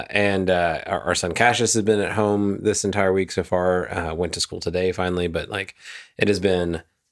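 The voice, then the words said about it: Scratchy, congested sick voice. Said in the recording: “You could probably hear it in my voice. My throat is scratchy. My nose is stuffed up. I got coughs.”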